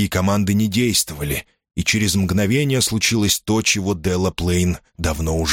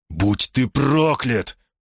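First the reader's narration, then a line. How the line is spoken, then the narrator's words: Hissing. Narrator (Russian): прошипел Строубридж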